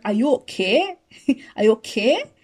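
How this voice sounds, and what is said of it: Put-on Barbados accent. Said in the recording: “I'm gonna use a Barbados accent.”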